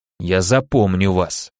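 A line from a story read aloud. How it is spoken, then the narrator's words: Through gritted teeth. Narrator (Russian): сквозь зубы сказал я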